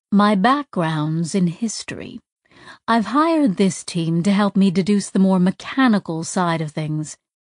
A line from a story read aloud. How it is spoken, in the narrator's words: Tack said smoothly